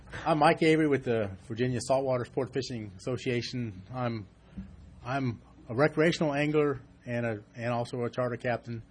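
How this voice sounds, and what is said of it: Hoarse, fading voice. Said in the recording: “I've been kind of losing my voice lately.”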